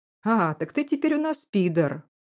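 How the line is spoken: Cheerful hunter. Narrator (Russian): весело заявляет один из охотников

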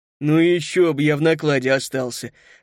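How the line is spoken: Exclaiming. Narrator (Russian): воскликнула

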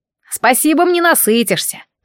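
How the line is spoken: Grumbling. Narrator (Russian): проворчал он

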